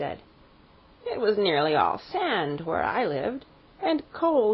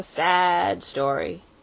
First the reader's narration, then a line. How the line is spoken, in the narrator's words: said the Psammead gloomily